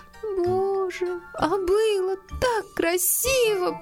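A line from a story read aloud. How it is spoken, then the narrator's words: Almost sobbing. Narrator (Russian): почти зарыдала Полианна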